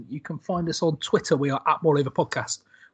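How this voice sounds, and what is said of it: West Country English accent. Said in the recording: “all with a West Country accent.”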